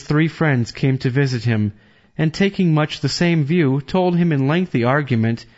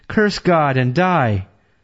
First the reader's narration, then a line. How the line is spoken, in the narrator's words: His wife exclaimed